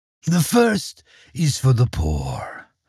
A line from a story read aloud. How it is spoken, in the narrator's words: said the demon in his evil voice